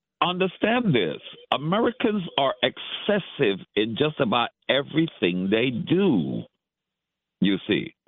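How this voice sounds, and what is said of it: Great radio voice. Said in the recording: “I love your voice. You got a great radio voice.”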